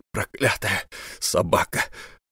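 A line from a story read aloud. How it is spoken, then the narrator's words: Muttering. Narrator (Russian): бормотал Хвостов Погибельский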